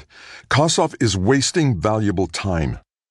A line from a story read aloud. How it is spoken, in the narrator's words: Brad blurted